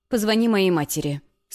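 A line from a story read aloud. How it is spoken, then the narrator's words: Stern reply. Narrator (Russian): строго отозвалась я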